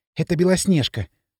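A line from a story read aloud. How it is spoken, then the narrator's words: Breathless whisper. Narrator (Russian): задыхаясь, прошептала Машка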